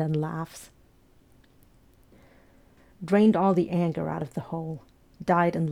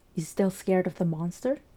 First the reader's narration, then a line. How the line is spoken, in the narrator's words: He asks, in the nicest voice he can produce